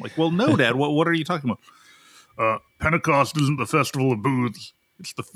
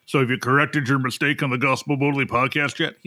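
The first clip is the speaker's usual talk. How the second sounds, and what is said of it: Imitates another person's voice. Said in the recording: “He doesn't quite talk like that, but that's my dad voice for here.”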